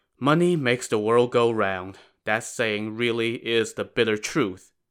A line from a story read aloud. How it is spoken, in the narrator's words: sighed and said